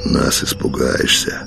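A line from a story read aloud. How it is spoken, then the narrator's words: Grumbling. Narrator (Russian): проворчал Калина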